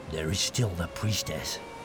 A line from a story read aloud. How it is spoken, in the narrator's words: Ard muttered darkly